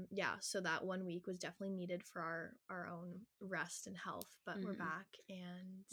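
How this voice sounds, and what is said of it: Voice affected by a cold. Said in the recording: “can hear it in my voice, ... I'm kind of coming down with a cold right now”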